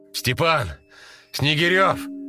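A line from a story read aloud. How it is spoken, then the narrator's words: Hoarse, strained shout. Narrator (Russian): закричал он, срывая голос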